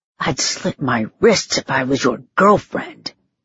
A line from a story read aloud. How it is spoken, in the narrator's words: I hissed